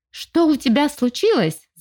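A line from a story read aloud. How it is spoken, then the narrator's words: Yelling. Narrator (Russian): заорал Макс с порога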